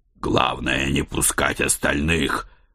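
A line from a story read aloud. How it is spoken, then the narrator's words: Growled. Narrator (Russian): прорычал я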